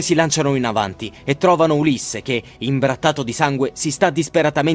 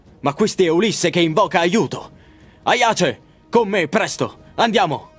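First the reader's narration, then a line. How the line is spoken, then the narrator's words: Exclaiming. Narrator (Italian): Menelao, che esclama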